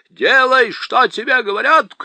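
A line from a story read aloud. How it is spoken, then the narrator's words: Shouted, uncle. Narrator (Russian): крикнул дядя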